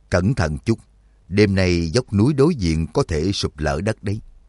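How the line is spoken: Cold warning. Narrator (Vietnamese): lạnh lùng nhắc nhở

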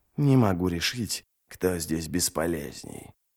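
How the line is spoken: Muttering. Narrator (Russian): пробормотал Ничто

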